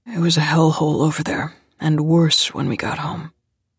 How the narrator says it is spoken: he said quietly

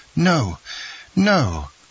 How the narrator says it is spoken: cried Dantès

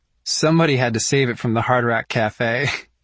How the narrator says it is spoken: Mia says with a laugh, but I can hear the potholes in her voice too

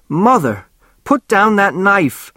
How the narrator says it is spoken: Norma screamed at her

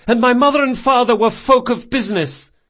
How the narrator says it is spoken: he yelled

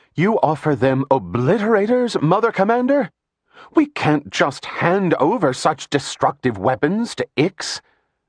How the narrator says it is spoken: With both anger and disdain, Korea cried

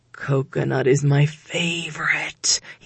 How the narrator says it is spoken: he moaned

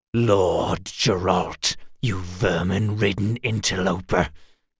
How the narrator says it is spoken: he corrected, his voice a virulent whisper

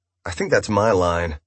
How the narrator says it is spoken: she sighed

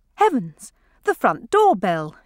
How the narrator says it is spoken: exclaimed Clarissa

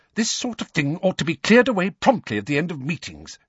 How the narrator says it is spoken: she snapped

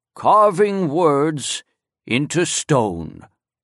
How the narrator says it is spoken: Solemnly, he intoned

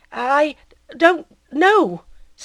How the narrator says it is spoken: stammered the young fellow

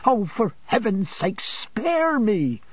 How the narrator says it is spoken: exclaimed Emily

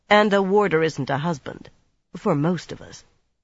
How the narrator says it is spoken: Swan said dryly

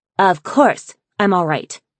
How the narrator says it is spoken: she snapped

